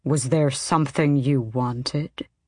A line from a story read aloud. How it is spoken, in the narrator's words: the king asked coolly